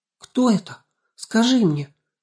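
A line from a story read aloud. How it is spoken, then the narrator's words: Frightened question. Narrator (Russian): испуганно переспросила Анастасия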